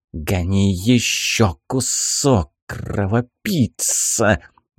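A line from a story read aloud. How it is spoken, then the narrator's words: Hissing old witch. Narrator (Russian): зашипела в своей манере из третьего факела Баба-Яга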